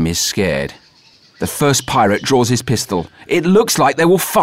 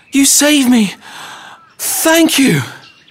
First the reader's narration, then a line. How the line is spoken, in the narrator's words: cries Jim